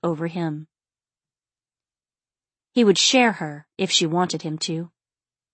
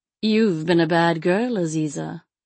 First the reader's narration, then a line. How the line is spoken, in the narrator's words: Ram intoned